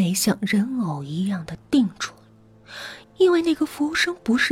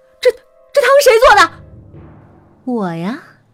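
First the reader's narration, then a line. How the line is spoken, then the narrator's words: Frantic shout. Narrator (Chinese): 丁伟却失控的对着服务员大喊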